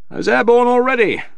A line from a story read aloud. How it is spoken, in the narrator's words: the pilot shouted back